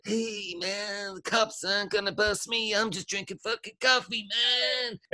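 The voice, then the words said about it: Impression of a stoner's voice. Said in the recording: “mocking the fucking way a stoner looks ... That was a really good impression.”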